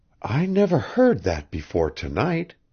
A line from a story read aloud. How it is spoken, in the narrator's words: Janet murmured